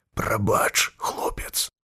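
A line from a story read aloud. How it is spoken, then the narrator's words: Whisper. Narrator (Belarusian): сказаў Сержуку шэптам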